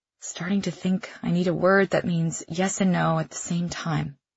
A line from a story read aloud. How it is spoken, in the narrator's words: whisper, looking at my toes